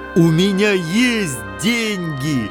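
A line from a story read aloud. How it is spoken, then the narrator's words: Joyful yell. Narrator (Russian): радостно завопил он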